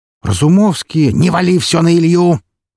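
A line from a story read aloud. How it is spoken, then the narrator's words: Barking shout. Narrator (Russian): рявкнул Григорий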